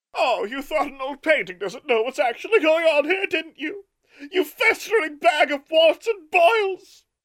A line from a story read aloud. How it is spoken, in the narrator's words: Martha shrieked with rage